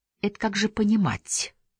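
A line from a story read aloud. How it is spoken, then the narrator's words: Quiet, bitter, weary. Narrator (Russian): тихо ожесточилась Нина, устав быть обо всем внимательной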